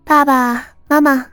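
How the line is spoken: Happy greeting. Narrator (Chinese): 江烟 高兴的叫人

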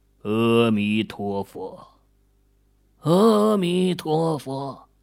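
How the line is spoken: Quiet muttering. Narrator (Chinese): 莫永兴撇撇嘴，小声的嘀咕了一句

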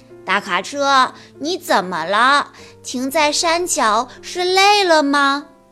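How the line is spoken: Sighing. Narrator (Chinese): 卡车 叹着气说

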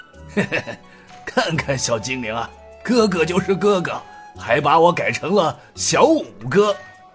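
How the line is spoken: Chuckling. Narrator (Chinese): 刘武呵呵笑道

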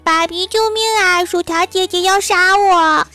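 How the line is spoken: Terrified yelling while running. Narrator (Chinese): 大喊着，一边跑一边喊

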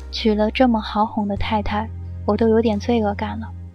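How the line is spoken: Sighing exclamation. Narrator (Chinese): 尚修文感叹道

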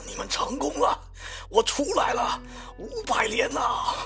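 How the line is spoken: Hoarse voice. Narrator (Chinese): 查夫肯姆用那个沙哑的声音说

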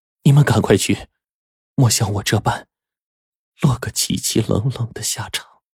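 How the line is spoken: Anxious mournful sigh. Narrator (Chinese): 女鬼很是焦急，……幽怨的脸上叹道

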